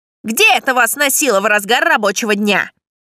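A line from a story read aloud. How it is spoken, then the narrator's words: Sharp question. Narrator (Russian): резко спросил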